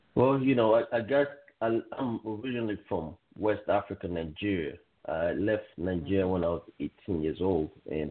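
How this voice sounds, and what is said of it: Noticeable West African accent. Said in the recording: “I know they hear an accent”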